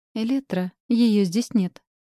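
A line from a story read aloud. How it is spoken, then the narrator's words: Calm. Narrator (Russian): спокойным тоном сказала Диана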